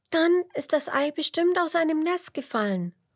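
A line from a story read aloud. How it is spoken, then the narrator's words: Call. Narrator (German): ruft Emmerla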